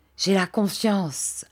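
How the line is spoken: Solemn. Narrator (French): ajouta-t-il d'un ton solennel

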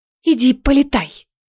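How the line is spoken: Hissed. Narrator (Russian): прошипела Неста

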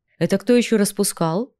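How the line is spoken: Snort. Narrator (Russian): фыркнул я

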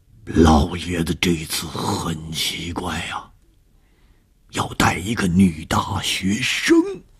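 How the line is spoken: Hushed low voice. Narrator (Chinese): 吴刚压低声音说

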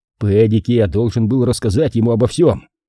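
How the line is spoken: Snapping retort. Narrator (Russian): огрызнулся Шейн

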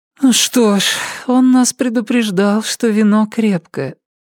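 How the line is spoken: Sleepy mumble. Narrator (Russian): сонно пробормотала дверь

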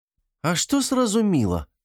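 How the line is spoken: Indignant young woman. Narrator (Russian): возмущенно произнесла девушка

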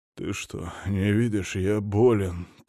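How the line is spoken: Hoarse wheeze. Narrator (Russian): прохрипел Сила Игнатьевич

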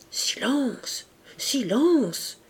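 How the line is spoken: Obliging voices murmuring. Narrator (French): murmurèrent des voix complaisantes

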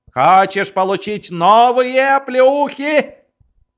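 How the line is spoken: Shouting at someone. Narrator (Russian): подпоручик Дуб закричал на Кунарта

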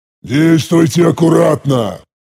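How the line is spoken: Growled order. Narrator (Russian): прорычал я приказ

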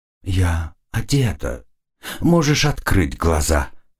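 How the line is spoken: Breathy whisper. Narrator (Russian): прошептали ее губы, обдав меня горячим дыханием

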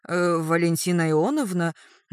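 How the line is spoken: Nurse's uncertain bleat. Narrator (Russian): неуверенно блеет медсестра

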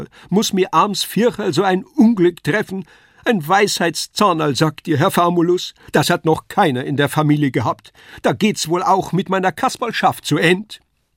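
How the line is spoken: Wailing lament. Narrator (German): jammerte Kasperl

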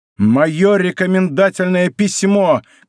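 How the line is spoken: Shouting. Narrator (Russian): кричал Д'Артаньян

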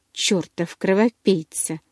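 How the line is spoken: Muttered through teeth. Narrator (Russian): Сквозь зубы пробормотал он

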